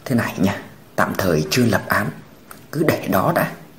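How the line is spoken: Lowered, tight-lipped voice. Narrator (Vietnamese): mím môi hạ giọng nói

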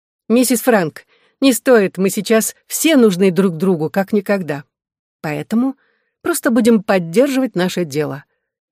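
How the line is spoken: Answering with laughter. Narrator (Russian): ответила я, засмеявшись

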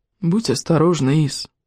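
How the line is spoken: Gentle, tender. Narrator (Russian): ласково произнес он

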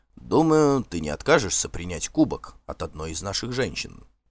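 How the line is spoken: Plain. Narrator (Russian): сказал Торбранд

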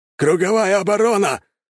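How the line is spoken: Panicked yell. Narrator (Russian): Осознав, что окончательно потерял контроль, завопил приручитель

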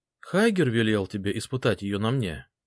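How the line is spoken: Calm question. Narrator (Russian): спокойно спросила

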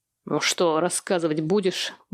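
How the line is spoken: Menacing bark. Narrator (Russian): грозно рявкнул

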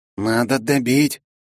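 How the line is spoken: Hoarse rasp. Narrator (Russian): прохрипел Пофиг

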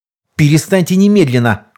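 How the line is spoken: Shouted. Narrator (Russian): крикнул я

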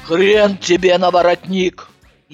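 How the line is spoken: Deep bass voice. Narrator (Russian): пробасила

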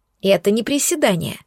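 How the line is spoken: Snort. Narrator (Russian): хмыкнула

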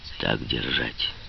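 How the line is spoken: Deep, muffled voice. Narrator (Russian): сказал Шрей глубоким, глухим голосом

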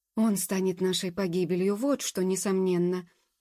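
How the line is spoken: Grumbling. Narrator (Russian): проворчал мэтр Абревиль

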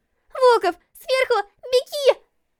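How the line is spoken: Shouting. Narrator (Russian): закричала Лилит

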